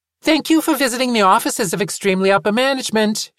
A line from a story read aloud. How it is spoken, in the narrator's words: she said cheerfully